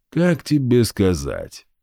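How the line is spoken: Grim smirk. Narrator (Russian): мрачно усмехнулся Игв

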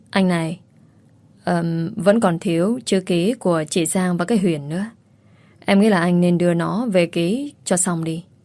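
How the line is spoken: Hesitant flattering voice. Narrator (Vietnamese): Chị gấm ngập ngừng nịnh hắn

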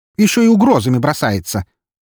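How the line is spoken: Quick exclamation. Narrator (Russian): тут же воскликнула та

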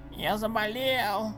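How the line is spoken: Hoarse child's voice. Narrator (Russian): прохрипел малыш Коб

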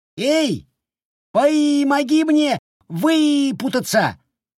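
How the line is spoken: Yelled. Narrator (Russian): завопил незадачливый Шутик

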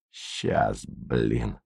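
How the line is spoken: Angry snarling mutter. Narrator (Russian): злобно щерясь пробормотал Борисов

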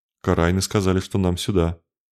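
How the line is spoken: Uncertain. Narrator (Russian): парень неуверенно сказал

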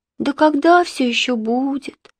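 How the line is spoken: Sighing. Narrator (Russian): вздохнула Марина

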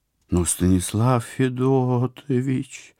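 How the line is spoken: Penitent whining. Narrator (Russian): покаянно заскулила она

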